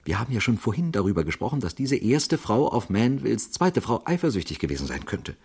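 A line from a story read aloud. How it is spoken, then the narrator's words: Quiet, excited. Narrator (German): bemerkte er leise und aufgeregt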